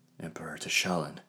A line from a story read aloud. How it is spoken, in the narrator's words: breathed Minister Glavio